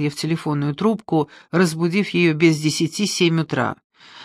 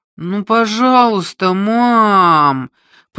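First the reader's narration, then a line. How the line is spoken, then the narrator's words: Whiny childish drawl. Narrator (Russian): протянул я тоном 7-летнего ребенка, уговаривающего родителей купить ему долгожданную игрушку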